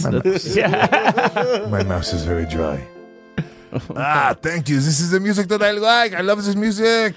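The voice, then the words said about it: Put-on French accent. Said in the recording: “do the entire podcast in a French accent? ... I just realized how good I am at this French accent.”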